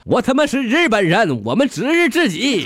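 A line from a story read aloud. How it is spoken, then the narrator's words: Loud shouting. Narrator (Chinese): 小泉大声的喊了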